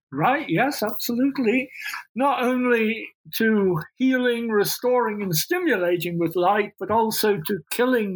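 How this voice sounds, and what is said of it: Unusual accent. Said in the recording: “Also has a funny accent.”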